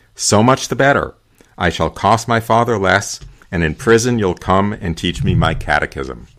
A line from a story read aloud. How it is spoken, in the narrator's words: the accused replied calmly